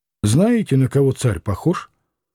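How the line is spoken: Plain. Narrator (Russian): спросил Иноков

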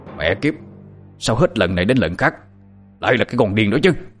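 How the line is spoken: Angry old man shouting. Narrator (Vietnamese): Lão tức giận quát lên

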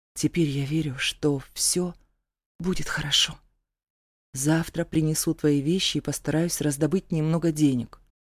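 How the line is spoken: Whispered in ear. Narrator (Russian): прошептала на ухо

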